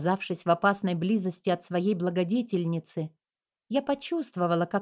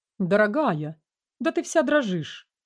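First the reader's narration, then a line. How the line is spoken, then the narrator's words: Duchess's exclamation. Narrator (Russian): воскликнула герцогиня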